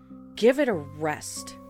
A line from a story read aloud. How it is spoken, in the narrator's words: I exclaimed